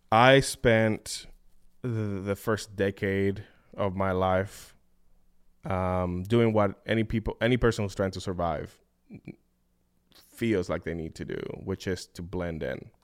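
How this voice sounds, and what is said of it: Noticeable non-native English accent. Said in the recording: “get rid of my accent. As you can tell, I have not been able to do that. It used to be a lot thicker. ... keep the accent”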